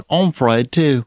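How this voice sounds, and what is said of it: Bad put-on British accent. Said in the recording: “That's my British accent. You're welcome. ... It's horrible.”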